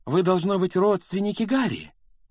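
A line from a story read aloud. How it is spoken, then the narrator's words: Exclaiming. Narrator (Russian): воскликнула миссис Уизли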